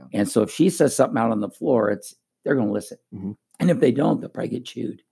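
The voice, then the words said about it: Hoarse, strained voice from yelling. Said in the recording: “my voice is a little crazy ... From last night, you're screaming and yelling”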